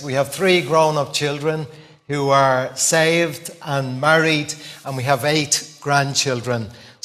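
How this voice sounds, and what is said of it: Dublin Irish accent. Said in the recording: “I was born many, many years ago on the Liberties in Dublin. You might get that from my accent.”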